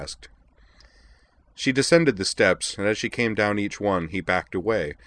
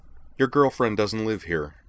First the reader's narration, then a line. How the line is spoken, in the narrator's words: Utina told him flatly